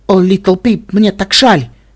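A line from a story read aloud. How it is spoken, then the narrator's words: Exclamation. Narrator (Russian): воскликнул Ксенит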